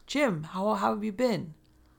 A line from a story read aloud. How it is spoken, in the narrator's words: excited to see him and yelled